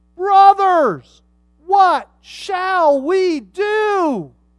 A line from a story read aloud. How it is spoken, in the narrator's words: cut to the heart and they cried